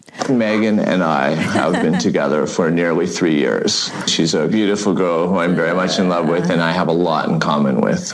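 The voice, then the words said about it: Heavy forced vocal fry. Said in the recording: “the vocal fry ... It's really forced. That's an affect, this vocal fry ... It sounds like he's laying down when he speaks”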